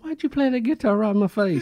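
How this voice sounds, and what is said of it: Imitates another person's voice. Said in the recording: “imitating Michael”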